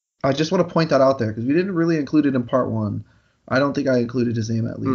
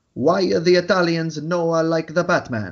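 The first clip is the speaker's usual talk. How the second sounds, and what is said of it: Put-on Italian accent. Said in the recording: “Italian accent ... That was my best impression at an Italian accent”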